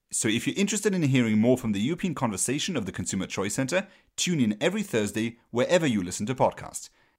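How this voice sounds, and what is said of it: British accent. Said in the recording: “a complimentary British accent is included”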